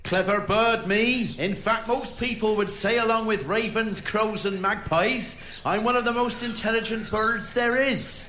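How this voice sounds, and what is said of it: West Country accent. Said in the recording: “Lovely West Country accent as well.”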